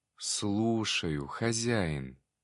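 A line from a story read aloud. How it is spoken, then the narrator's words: Barely audible rustle. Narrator (Russian): еле слышно прошелестело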